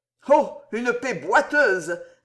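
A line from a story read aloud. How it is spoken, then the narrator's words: Goldsmith's loud sneer. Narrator (French): ricana tout haut l'orfèvre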